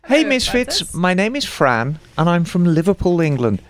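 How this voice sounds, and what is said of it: Put-on British accent. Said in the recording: “Can you please read it in a British accent?”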